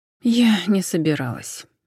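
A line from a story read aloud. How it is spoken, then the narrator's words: Sigh. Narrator (Russian): вздохнула Джен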